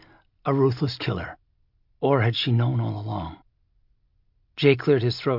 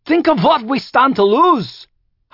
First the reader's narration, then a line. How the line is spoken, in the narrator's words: Hiram cried